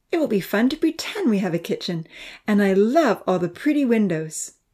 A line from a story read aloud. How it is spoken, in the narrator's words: Amy said happily to herself